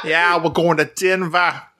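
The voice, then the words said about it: Put-on Boston accent. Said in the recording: “a Bostonian trying to say Denver”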